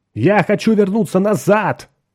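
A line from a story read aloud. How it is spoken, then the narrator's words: Shout. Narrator (Russian): закричал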